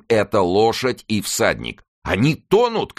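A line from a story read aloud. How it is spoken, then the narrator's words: Shout. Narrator (Russian): крикнул Оливен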